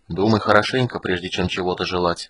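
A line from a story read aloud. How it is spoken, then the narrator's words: Quiet. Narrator (Russian): сказал тихо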